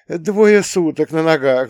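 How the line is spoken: Sighing. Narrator (Russian): вздохнул он

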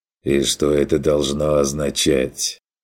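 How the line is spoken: Quiet. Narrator (Russian): тихо выговорил

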